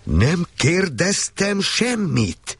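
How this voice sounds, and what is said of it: Terrifying bellowing shout. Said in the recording (Hungarian): “most elbődült... Olyan rettenetes hangon, hogy megfagyott a vér az ereimben”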